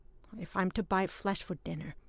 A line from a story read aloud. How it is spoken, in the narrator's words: he began timidly, in his native tongue